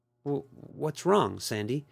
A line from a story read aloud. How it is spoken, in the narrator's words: Brenda asked nervously